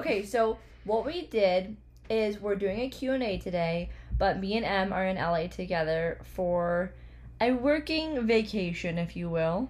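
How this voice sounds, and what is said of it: Hoarse, fading voice. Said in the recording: “losing my voice ... I feel like I sound very different”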